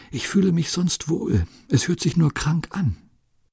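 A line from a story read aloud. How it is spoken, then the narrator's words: Barely able to whisper. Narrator (German): Sie können gerade noch flüstern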